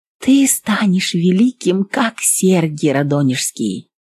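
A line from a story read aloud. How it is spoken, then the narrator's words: Tearful, tender whisper. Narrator (Russian): Старшая сестрица Акулина плакала, шептала с умилением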